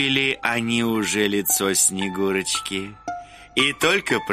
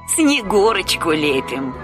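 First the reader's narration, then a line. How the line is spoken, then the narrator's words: Old woman answering, laughing. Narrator (Russian): ответила старуха и засмеялась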